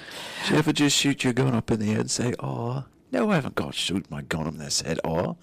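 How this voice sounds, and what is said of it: Put-on English accent. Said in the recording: “See, there's the English accent.”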